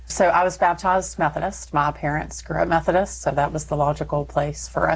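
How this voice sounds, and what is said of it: Slight Texas accent. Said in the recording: “you're going to hear a little Texas”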